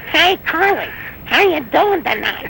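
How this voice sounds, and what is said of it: Weird spaced-out imitated voice. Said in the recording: “when he'd talk, he'd have that weird voice.”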